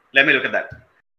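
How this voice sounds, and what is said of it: Put-on Indian accent. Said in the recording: “speaks in an Indian accent.”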